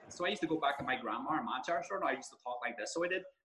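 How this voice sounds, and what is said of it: Put-on Northern Irish accent. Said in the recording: “I used to have a Northern Irish accent”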